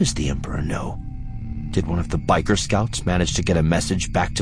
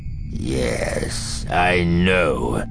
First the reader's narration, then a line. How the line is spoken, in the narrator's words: hisses the Emperor